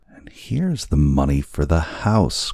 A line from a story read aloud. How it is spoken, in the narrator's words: cried Lopaka